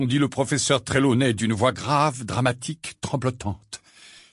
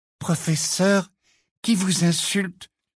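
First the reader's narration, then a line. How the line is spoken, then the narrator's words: Timid question. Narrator (French): demanda timidement Parvati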